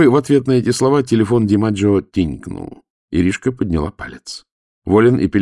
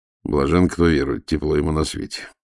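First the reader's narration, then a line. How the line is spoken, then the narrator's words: Grumbling. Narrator (Russian): проворчал старший следователь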